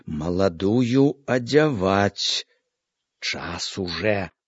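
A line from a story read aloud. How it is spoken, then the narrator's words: Quiet, deliberate, worried. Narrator (Belarusian): Мачыха з заклапочаным выглядам сказала ціха, разважліва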